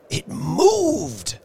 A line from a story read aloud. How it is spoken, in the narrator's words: he cried, with a glance of disgust